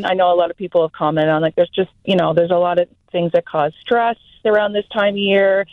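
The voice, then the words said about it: Strong Canadian accent. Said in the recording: “my accent, my Canadian accent's coming in strong.”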